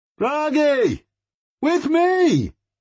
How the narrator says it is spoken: he shouted, as loud as he could

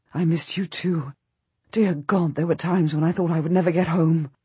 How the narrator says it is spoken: murmuring

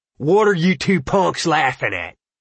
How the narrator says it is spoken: Ralph roared

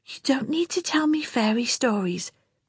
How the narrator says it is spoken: Peter whispered back

